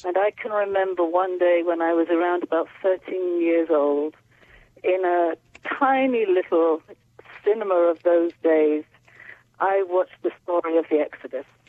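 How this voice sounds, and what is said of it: English accent. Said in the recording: “I grew up in my very Orthodox Jewish world in England, as you can hear in my accent.”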